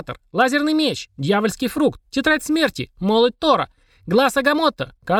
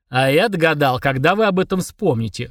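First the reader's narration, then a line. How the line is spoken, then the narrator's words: Snorting. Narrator (Russian): хмыкнул Фурундорог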